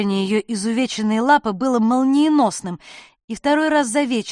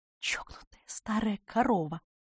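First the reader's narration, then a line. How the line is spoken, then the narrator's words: Whisper. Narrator (Russian): шепнула я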